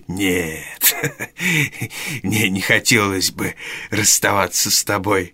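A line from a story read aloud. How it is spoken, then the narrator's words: Laughing old man. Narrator (Russian): рассмеялся старый еврей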